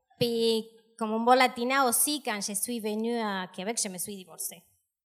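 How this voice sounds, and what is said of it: South American accent in French. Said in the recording (French): “Me yo viene de América del Sur ... c'est à cause de mon accent”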